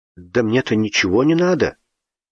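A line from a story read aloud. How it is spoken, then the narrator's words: Offended. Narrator (Russian): обиженно сказал Славик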